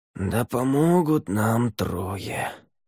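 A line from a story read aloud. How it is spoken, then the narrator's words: Breathed out. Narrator (Russian): выдохнул Ель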